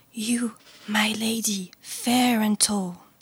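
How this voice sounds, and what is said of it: Whispered line. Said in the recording (French): “commença à chuchoter”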